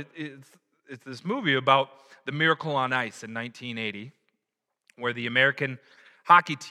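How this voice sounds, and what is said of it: Usual voice. Nothing is said of it.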